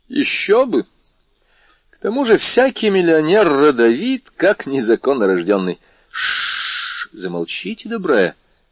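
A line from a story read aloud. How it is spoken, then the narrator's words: Laughing. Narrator (Russian): сказал смеясь Бушан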